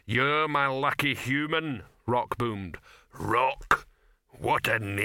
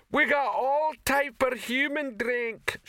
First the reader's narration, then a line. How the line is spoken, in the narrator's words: shouted the female troll behind the bar